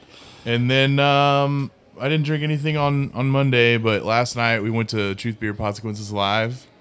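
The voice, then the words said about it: Flat monotone, hungover-sounding voice. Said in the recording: “I'm fucking hungover right now ... my monotone”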